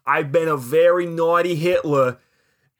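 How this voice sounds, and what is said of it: Botched New York accent. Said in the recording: “why is he from Boston? ... That was me gooning up a New York accent. ... I mess them up too.”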